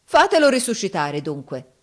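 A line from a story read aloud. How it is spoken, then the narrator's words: Defiant shout. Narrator (Italian): urlò Giovanni in tuono di sfida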